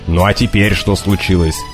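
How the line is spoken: Demanding. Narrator (Russian): потребовал Макнаут, сердито

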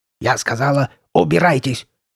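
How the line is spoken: Guttural bark. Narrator (Russian): рявкнула Карли Бет таким утробным голосом

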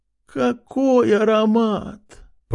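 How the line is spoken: Mother moaning. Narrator (Russian): простонала мать

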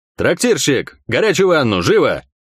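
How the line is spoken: Barked command. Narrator (Russian): рявкнул капитан

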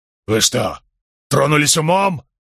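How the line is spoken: Roar with a tremor. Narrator (Russian): взревел Рейнольдс, однако в голосе его послышалась дрожь

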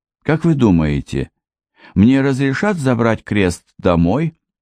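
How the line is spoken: Timid question. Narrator (Russian): робко спросил студент

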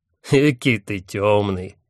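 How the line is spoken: Snort. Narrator (Russian): хмыкнул Хатхас

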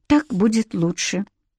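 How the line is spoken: Glum, stubborn. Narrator (Russian): произнесла Наоми уныло, упрямо

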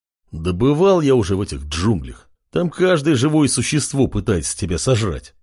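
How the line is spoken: Grumbling. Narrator (Russian): проворчал блондин

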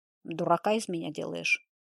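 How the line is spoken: Cold question. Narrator (Russian): холодно спросил Беленков

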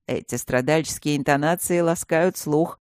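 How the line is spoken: Mocking. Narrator (Russian): насмешливо отозвался он

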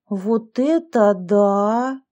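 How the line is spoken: Drawn-out drawl. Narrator (Russian): протянула Яшка

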